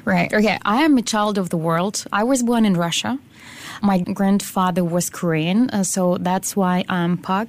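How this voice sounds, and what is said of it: Non-local foreign accent. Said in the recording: “clearly from your accent, you're not from around here”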